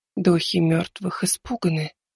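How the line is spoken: Barely audible whisper. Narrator (Russian): прошептала она чуть слышно

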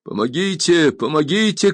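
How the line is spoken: Strangled desperate cry. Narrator (Russian): кричал несчастный сдавленным голосом

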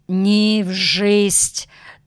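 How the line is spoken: Solemn. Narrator (Russian): торжественно говорил Щербаков

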